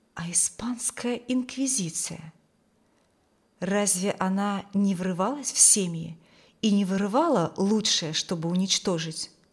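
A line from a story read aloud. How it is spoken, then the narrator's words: Whisper. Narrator (Russian): словно кто-то шепнул ей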